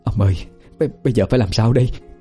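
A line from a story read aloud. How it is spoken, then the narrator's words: Trembling question. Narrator (Vietnamese): Bà Khôi run rẩy hỏi chồng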